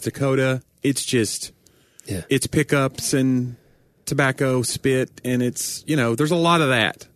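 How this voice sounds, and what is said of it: Mild southern accent. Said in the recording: “they expected my accent to be a lot thicker when they heard that I was from Tennessee... I have a southern accent, but it's probably, since I speak for a living, it's probably some of that's been weeded out to some degree.”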